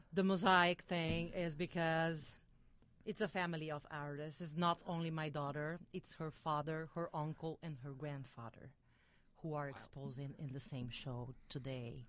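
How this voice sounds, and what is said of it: Brazilian accent. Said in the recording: “she has a great accent ... the Brazilian accent”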